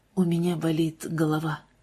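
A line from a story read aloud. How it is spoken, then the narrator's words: Quiet. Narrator (Russian): тихо произнес джентльмен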